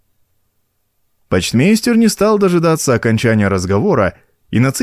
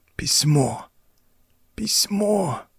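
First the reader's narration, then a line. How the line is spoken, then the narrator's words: Weak moan, dying man. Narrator (Russian): Слабеющим голосом простонал умирающий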